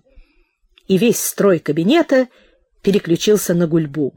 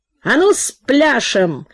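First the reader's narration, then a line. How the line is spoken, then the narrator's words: Booming deacon. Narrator (Russian): Дьякон прогудел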